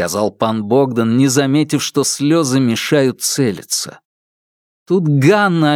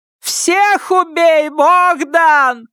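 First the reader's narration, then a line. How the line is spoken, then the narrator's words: Shouting. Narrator (Russian): закричала тетя Циля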